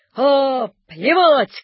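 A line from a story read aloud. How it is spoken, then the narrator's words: Dashing shout. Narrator (Russian): крикнул он лихо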